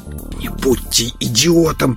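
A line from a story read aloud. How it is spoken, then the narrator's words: Male whisper. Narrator (Russian): прошептал мужчина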